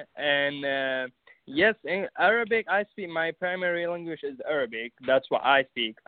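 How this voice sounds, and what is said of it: Non-native English accent, Arabic speaker. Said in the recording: “I still have an accent.”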